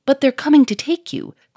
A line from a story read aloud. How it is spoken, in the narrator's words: cried Victor